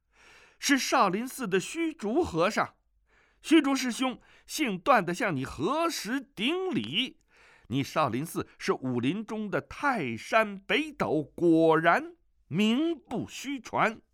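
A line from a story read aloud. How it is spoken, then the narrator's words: Loud shout. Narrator (Chinese): 大声叫道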